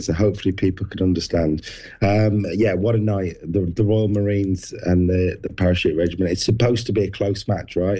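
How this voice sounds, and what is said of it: Strained, partly lost voice. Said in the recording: “losing your voice a little bit... I definitely lost my voice”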